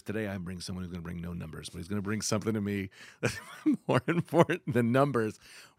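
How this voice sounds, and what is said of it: Deeper podcast host voice. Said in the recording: “I go an octave down when I do the intro ... don't I sound a little different right now? ... This is my podcast voice.”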